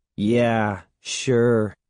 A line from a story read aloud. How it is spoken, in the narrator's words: Evan said sarcastically